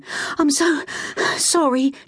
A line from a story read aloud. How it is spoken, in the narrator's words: gasped, bending over in an effort to draw air into her lungs